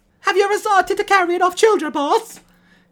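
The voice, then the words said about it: Put-on accent for character Luigi. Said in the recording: “We're saving that accent for Luigi. The one character that needed it.”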